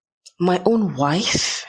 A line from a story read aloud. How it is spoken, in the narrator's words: he whispered